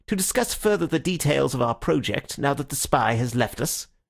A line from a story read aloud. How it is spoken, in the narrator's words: he said a little sharply